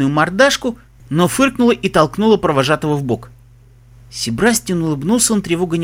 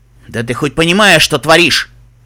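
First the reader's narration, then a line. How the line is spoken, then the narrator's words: Angry bark. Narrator (Russian): рявкнул он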